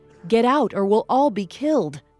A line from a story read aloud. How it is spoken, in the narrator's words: said another